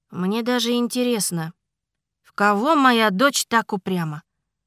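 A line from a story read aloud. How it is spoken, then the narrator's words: Sighing. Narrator (Russian): вздохнул Ренар Иларийский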